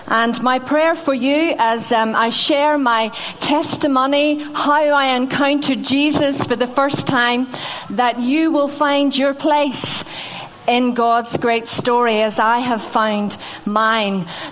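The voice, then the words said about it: Northern Irish-tinged English accent. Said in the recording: “I have a North Devon accent. Well, you might say that it sounds a bit ropey... I originally came from Northern Ireland. That's where I grew up.”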